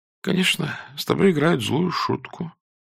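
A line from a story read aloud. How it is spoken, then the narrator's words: Sleepy contemptuous mutter. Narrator (Russian): пробормотала она, сонно и презрительно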